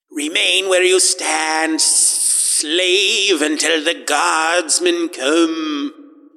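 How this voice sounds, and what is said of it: Sibilant whisper. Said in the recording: “a good auditory depiction of sibilant, a sibilant whisper. I did my best”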